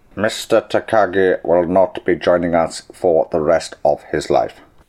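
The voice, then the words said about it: Alan Rickman impression. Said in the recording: “I could do Alan Rickman as well ... There's Alan Rickman.”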